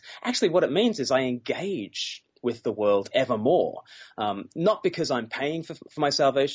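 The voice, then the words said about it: Noticeable cool accent. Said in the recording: “you have a cool accent”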